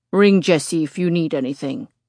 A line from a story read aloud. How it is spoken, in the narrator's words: he grunts